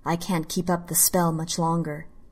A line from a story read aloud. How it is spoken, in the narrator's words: he said